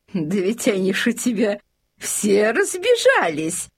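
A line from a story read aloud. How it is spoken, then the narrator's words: Lady-in-waiting laughing. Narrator (Russian): засмеялась фрейлина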